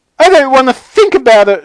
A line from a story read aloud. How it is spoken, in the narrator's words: shrieked Mrs